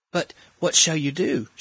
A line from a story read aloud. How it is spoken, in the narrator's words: She asked anxiously